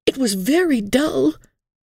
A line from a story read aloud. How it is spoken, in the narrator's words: pleaded, as if dullness and wickedness were quite incompatible